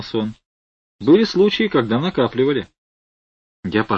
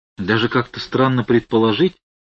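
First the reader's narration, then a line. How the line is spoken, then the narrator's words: Confused, bewildered. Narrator (Russian): сказал я растерянно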